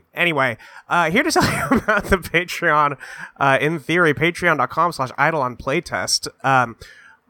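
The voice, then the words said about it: Congested, sick-sounding voice. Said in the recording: “if I sound a little sick. ... I just got over a nasty little head cold. And, you know, I sound like this right now”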